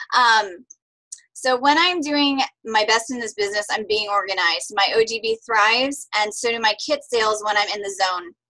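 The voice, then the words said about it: Hoarse, strained voice. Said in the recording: “I was losing my voice already before we started tonight”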